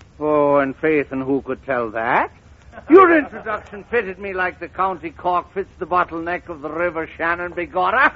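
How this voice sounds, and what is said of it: Exaggerated put-on Irish brogue. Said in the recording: “put on that broken-down Irish brogue”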